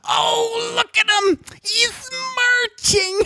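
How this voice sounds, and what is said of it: Imitates another person's voice. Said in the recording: “impersonating my mom going ... all of a sudden she was Edith Bunker from All in the Family ... she kind of sounds like that”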